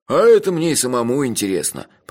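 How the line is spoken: Hermit grumbling. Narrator (Russian): проворчал отшельник

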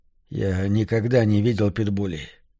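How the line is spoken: Sleepy. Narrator (Russian): сонно сказал Вилли

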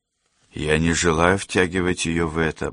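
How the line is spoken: Grumbling mutter. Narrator (Russian): буркнул Дэмиан

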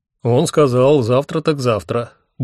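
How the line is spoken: Cheerful. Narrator (Russian): бодро сообщил мне Хехельф

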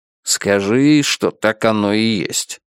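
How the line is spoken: Grumbled. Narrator (Russian): буркнул Гик

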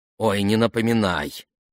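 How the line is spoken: Angry muttering. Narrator (Russian): сердито пробурчала Дайдо

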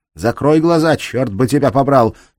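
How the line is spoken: Shouting. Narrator (Russian): крикнула Кирстен

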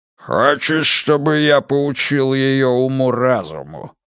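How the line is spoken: Growl. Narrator (Russian): рыкнул он

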